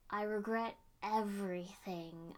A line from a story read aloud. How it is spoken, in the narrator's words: I said